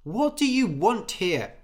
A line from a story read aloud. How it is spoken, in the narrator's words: shouted Anders